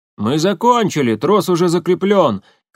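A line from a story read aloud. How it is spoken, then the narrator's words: Shouted. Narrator (Russian): крикнул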